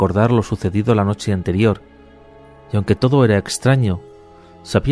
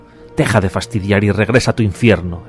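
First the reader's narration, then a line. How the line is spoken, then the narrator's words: Exclaimed. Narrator (Spanish): exclamó Nicolás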